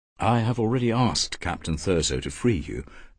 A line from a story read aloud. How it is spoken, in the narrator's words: Paris said gently